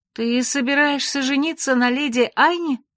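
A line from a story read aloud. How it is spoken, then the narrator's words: Exclaimed. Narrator (Russian): воскликнула я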